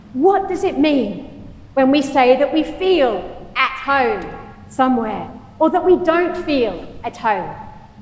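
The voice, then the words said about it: Non-American accent. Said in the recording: “Is home Australia, where I was born and brought up? Is it the UK, where my parents are from ... here in the US, where I've been now for over 15 years, although you wouldn't know it, from my accent.”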